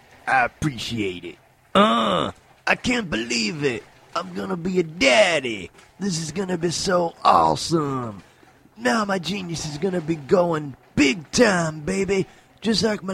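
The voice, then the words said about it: Poor imitation of another person's voice. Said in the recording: “that's a horrible Kanye West impersonation”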